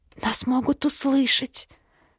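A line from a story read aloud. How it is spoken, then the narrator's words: Soft whisper. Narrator (Russian): шепчу тихонько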